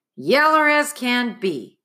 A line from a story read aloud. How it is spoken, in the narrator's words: Praiseworthy exclaimed